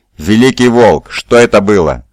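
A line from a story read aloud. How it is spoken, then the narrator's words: Roared. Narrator (Russian): взревел Скарсен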